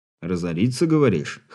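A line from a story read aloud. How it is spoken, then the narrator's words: Snorting. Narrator (Russian): хмыкнул Игорь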